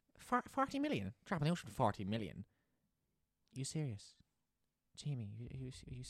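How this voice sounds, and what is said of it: Imitates another person's voice. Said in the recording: “Shall I do my Roy Keane?”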